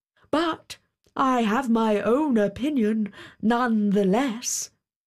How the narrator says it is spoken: exclaimed the king

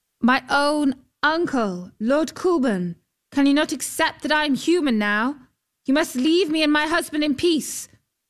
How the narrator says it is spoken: She called out

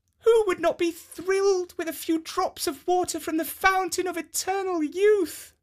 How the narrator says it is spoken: She exclaimed

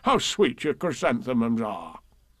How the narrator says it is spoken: murmured

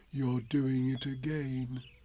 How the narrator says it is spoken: said Pooh sadly

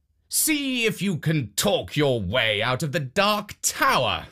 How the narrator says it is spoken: the king called out

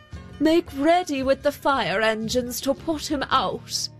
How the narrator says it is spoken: he called out

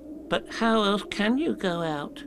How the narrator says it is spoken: asked Piglet anxiously

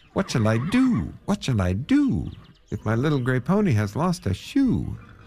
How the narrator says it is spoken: he cried out

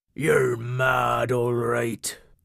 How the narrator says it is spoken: grumbled Cobby

